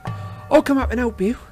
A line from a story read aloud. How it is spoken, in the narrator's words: said Tonks brightly